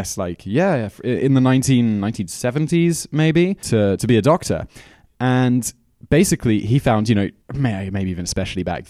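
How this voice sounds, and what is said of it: Slightly off British accent. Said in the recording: “slightly off accent ... my accent does sound a little bit off ... fake British accent”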